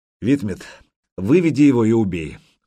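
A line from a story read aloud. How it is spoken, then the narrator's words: Weary. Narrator (Russian): устало произнес Сергей Иванович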